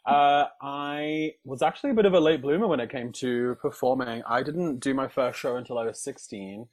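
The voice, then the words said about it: Southern British English accent. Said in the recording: “I do not sound like I'm from the northeast because uh, my parents have a very southern British accent.”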